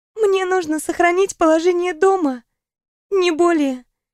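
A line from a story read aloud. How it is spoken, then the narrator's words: Sad, smiling. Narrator (Russian): грустно улыбнулась подруга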